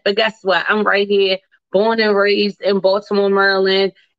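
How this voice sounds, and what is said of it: Baltimore accent. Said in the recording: “your girl ... is a Baltimore girl ... You can't tell from the accent.”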